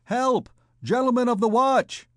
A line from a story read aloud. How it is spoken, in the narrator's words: shouted Gringoire